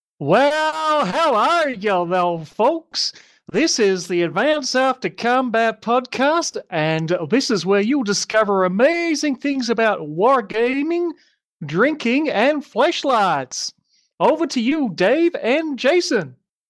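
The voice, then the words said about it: Decent put-on American accent. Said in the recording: “in your best American accent ... that was decent”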